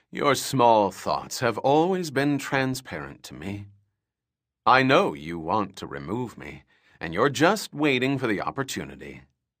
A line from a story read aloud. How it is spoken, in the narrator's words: Belanda said in her baritone voice